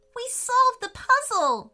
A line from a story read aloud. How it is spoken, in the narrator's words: shouted Anya